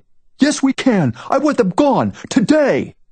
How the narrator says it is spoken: yells, livid

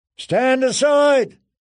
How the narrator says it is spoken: someone shouted, far away

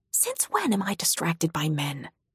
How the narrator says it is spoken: I whisper

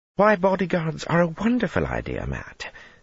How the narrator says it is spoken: Elaine exclaimed, her cheek dimpling in a smile

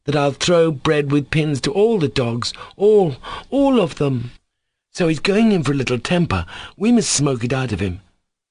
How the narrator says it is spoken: cried

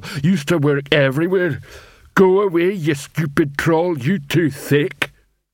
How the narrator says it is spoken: he added gloomily

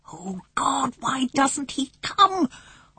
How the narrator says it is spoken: Omri whispered frenziedly

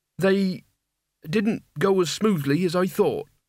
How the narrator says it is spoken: said Mort, standing nervously

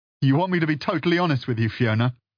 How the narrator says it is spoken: He laughed

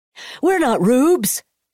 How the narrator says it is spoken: another man shouted from the fairground crowd

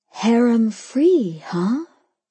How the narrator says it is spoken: I breathed back

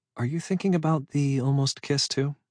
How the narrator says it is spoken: She asked, her voice quiet in the darkness

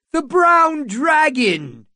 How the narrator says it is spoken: someone shouted

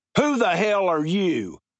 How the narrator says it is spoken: Carpenter said loudly

